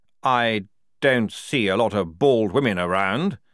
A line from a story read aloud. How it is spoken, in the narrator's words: snapped Frock